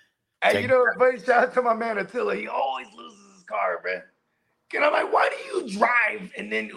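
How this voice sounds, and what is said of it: Usual voice. Nothing is said of it.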